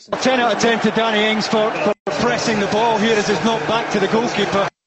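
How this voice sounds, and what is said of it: Thick Scottish accent. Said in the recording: “he's got a thick Scottish accent.”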